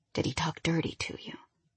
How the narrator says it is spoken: He whispered in my ear

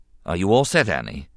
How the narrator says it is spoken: the Jedi Master asked calmly

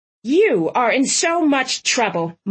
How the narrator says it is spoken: Mom barked

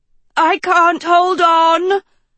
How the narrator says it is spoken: Dot howled

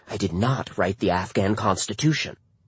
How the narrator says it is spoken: she leaned in and whispered in my ear

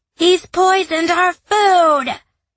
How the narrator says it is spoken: a Vorg yelled

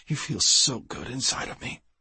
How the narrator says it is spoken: she breathed

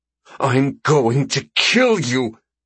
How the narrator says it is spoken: Valhelena hisses between her clenched teeth

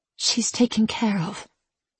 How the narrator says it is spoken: En said quietly, remembering the hatred in Lola's eyes after she made the oath

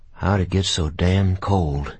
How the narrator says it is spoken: Jimmy Tweed muttered several times

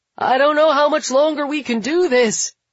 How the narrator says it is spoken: Billy shouts between the thunder

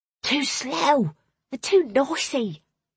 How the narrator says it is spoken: Clara hissed

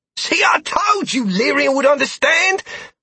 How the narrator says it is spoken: Rit exclaimed

